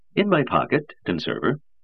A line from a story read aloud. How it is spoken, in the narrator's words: said Harriman cheerfully